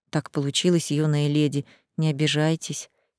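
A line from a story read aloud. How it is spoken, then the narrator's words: Quiet mumble. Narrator (Russian): тихо пробормотал он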